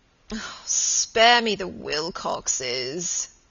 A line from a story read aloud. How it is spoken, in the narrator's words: he moaned